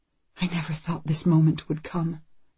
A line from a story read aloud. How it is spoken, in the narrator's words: Anne whispers